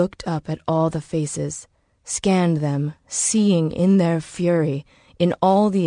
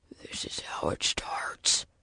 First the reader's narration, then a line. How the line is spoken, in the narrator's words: he whispered